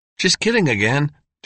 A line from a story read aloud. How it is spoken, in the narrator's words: Dale said hastily